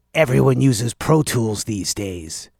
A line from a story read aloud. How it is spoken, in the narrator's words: he croaked with pride